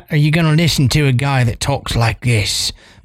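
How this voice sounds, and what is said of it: Seductive put-on English accent. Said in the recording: “very seductively ... You sound like Russell Brand just then”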